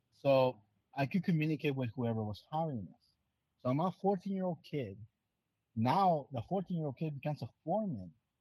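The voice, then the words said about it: Non-native English accent. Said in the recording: “I know how to speak English, even though it might not sound like it right now, you know, because my accent.”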